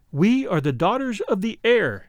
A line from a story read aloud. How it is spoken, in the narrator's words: they answered